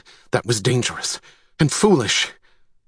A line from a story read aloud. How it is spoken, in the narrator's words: Gilbertus did not wait before blurting out